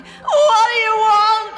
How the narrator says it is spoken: I cried

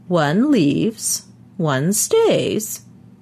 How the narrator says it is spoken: he said in his high, quavery voice

